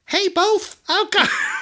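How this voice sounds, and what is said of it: Mickey Mouse cartoon voice. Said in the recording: “in a Mickey Mouse voice.”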